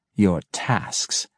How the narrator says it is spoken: she echoed scornfully

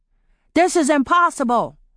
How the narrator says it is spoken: Polly shouted

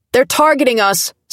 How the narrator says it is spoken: someone yelled

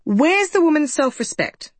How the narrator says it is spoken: snapped Julia

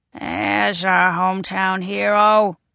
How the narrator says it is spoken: he croaks

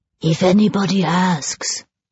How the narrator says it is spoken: whispered Jules

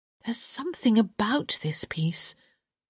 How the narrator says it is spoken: Hyacinth murmured

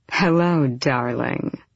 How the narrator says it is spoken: he purred

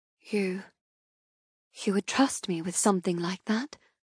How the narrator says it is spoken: I whisper in awe

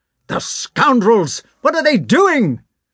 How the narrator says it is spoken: shouted the officer

